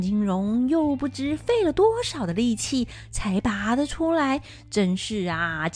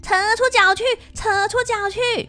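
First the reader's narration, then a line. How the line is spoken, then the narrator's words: Loud yelling. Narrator (Chinese): 大叫着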